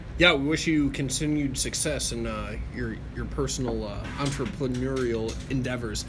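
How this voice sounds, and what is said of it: Slurred speech. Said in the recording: “I'm slurring my words, man. These mountains. ... got some altitude sickness there.”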